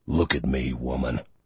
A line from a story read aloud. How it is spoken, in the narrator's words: Lore growled